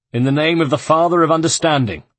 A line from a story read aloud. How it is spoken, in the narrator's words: he cried